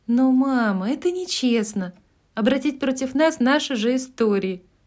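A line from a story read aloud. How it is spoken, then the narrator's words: Exclaimed. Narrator (Russian): воскликнула Мэг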